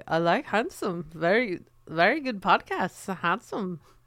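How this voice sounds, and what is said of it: Imperfect put-on Dutch accent. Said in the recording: “I'm not nailing the Dutch accent”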